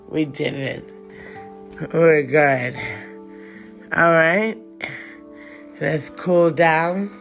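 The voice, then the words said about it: Slightly out of breath. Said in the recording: “I'm feeling a little out of breath.”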